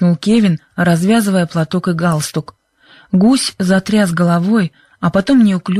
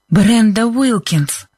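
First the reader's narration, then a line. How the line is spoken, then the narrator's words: Breathless exclamation. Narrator (Russian): выдохнула Либби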